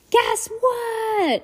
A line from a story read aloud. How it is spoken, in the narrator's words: Henry yelled